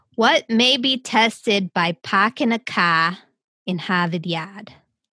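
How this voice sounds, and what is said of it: Convincing put-on Boston accent. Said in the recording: “Do you want to do a Boston accent? ... That was perfect. Good. You nailed it.”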